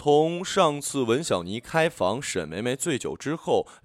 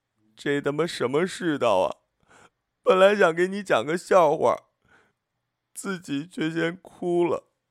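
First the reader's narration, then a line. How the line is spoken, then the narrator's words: Crying and shouting. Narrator (Chinese): 文小妮看着纸上的几个字，看着看着就哭了出来，一边哭还一边喊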